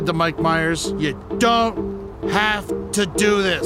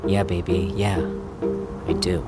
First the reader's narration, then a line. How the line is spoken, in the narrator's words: he said quietly